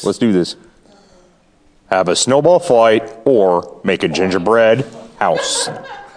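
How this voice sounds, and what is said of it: Poor Darth Vader voice impression. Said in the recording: “narrator voice ... where'd Darth Vader go? ... You try to say a snowball fight in Darth Vader voice. It was not good.”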